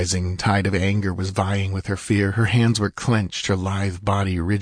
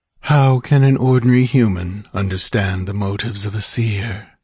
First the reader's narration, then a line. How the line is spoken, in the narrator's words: returned the master calmly